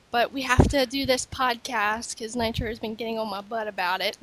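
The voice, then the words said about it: Sick-sounding, slightly off voice. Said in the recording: “I sound a little weird because I'm sick”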